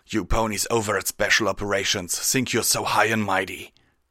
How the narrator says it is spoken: growled

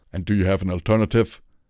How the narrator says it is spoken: Redbrand snorted again

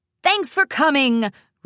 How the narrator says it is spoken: Rainbow shouted to the crowd

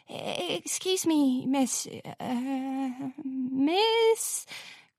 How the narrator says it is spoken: Crownpiece stammered over the music

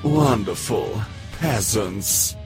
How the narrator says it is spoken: Blueblood gave a long-suffering sigh, muttering

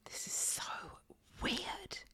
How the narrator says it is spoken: whispered

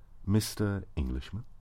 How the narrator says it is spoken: offered quietly

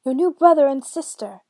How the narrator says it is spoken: shouted for joy

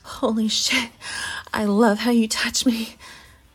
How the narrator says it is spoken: she said to quiet her moans

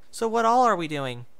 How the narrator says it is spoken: Dinky exclaimed, bouncing up and down

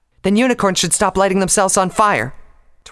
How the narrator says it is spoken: Twilight snapped

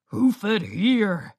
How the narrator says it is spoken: growled

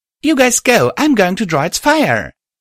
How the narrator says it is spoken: I called out

